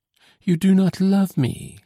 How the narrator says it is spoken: she exclaimed

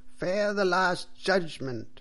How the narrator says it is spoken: cried the priest loudly and angrily

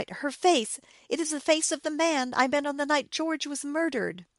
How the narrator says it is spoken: she cried, terrified

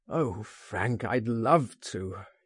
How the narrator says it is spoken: he groaned

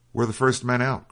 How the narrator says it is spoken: cried the officer

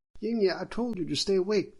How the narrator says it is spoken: the Majesty's wife shouted

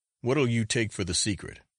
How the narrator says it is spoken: said his companion

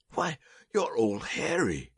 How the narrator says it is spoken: he cried

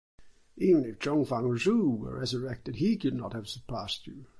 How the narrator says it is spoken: exclaimed the astonished commissioner

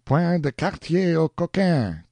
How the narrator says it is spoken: cried an eager pursuer, who seemed to direct the operations of the enemy

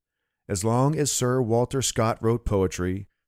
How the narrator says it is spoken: said a friend

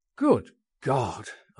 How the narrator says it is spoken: exclaimed

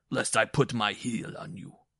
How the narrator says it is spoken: he bellowed

